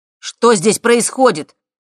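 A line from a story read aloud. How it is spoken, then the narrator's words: Shout. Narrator (Russian): крикнул Макс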